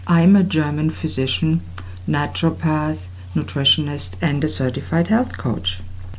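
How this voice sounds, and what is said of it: German accent. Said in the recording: “I have a German accent.”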